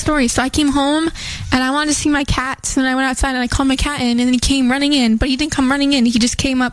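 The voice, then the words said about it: Put-on Southern US accent. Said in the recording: “Why are you saying with an accent like you're from the South?”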